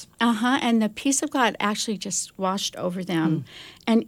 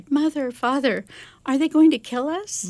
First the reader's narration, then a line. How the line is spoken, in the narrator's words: The children clung to their parents and cried